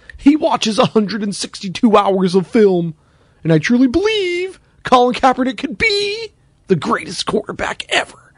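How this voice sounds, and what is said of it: Imitates another person's voice. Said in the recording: “my Jaws impression, which is basically just Frank Caliendo doing Jaworski”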